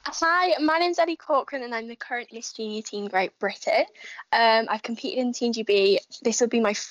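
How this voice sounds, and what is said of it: Usual voice. Nothing is said of it.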